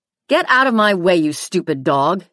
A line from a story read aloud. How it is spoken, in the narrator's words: he yelled